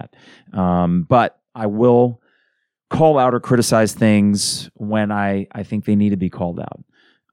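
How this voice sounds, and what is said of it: Hoarse, congested voice. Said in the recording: “You can tell from my voice that it's still coming back. Damn allergies.”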